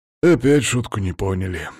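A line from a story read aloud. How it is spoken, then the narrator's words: Sigh. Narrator (Russian): вздохнул Макс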